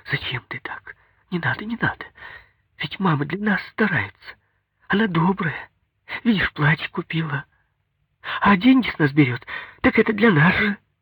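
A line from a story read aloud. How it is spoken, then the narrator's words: Fast frightened near-whisper. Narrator (Russian): заговорила быстро, таким испуганным тоном, почти шепотом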